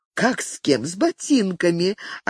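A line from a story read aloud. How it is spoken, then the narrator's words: Answer with a giggle. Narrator (Russian): ответила и опять хихикнула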